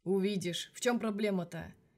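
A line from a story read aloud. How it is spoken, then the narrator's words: Knowing snort. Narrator (Russian): Верещагин ... понимающе хмыкнул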